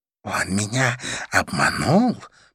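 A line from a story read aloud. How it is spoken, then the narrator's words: Hiss. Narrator (Russian): прошипела мадам Жу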